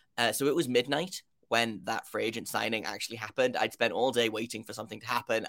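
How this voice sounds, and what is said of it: British accent. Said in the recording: “if you can't tell by my accent, I am from the United Kingdom”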